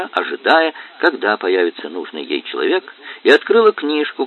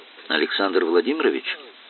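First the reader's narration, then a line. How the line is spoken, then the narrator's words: Quiet calling out. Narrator (Russian): негромко окликнула она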